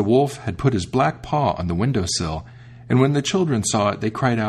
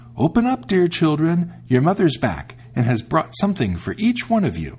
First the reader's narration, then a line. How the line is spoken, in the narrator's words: he called out